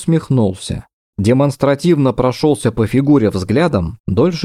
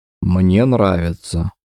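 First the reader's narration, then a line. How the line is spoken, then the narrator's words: Smiling, hollow, cracking voice. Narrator (Russian): произнес он с улыбкой, но голос звучал глухо, ломко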